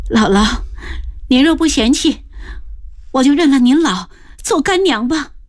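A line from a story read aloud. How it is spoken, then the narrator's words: Sobbing. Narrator (Chinese): 自幼失户的云娘只觉万感交集，呜的一声哭着，抽噎着说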